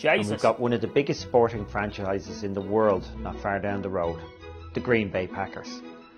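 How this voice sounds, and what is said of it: Irish accent. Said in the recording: “When I hear the Irish accent, when it sounds like this, it is quite hilarious.”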